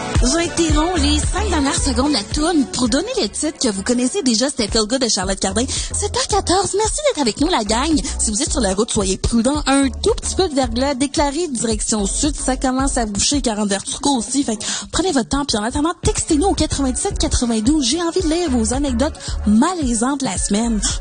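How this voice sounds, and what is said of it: Imitates Quebec commercial radio host. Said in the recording (French): “imitation d'une radio commerciale québécoise”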